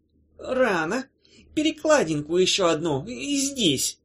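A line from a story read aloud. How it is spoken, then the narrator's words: Hoarse command. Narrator (Russian): сипло распорядилась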